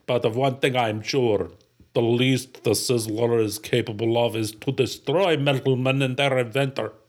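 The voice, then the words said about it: Put-on Russian accent, Terminator-like. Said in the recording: “That sounds like Arnold Schwarzenegger as the Terminator had been accidentally transported first to Russia ... It's actually much better than my accent. ... It's the L's. You got to get the L's.”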